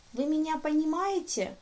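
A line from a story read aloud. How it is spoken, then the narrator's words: Squeaky question. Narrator (Russian): спросило это чудо все тем же писклявым голосом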